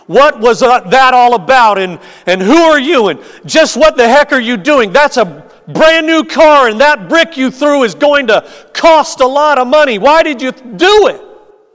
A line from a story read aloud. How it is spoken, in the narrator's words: The angry driver shouting